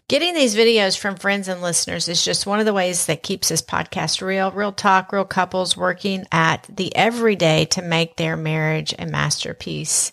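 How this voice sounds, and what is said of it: Southern accent. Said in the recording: “my southern accent may be a little bit stronger this episode”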